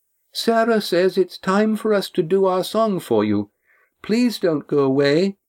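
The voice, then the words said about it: Small, high voice. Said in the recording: “A small, high voice cut through the buzz of conversation.”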